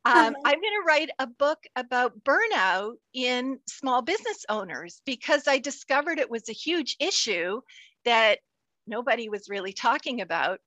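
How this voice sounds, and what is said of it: Canadian accent. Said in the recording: “you can tell my Canadian accent with my abouts”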